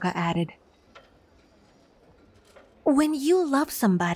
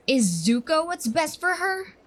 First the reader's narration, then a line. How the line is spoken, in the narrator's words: He spat out like venom, like a cornered beast